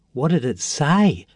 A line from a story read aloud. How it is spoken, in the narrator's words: asked Jack breathlessly